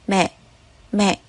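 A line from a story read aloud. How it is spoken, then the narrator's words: Tearful murmur. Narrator (Vietnamese): Nước mắt không khống chế được rơi xuống, cô lẩm bẩm kêu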